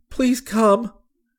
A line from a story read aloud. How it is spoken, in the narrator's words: he cried